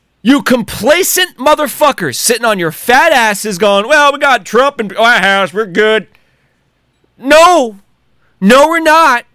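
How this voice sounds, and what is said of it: Loud, strained ranting voice. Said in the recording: “I know this is a rant ... I'm going to lose my voice. I'm going to lose my voice.”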